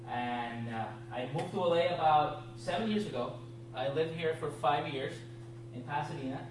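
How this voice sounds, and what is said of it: Puerto Rican accent. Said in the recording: “If you're wondering about my accent, I am from a small island on the right side of the Caribbean. It's named Puerto Rico.”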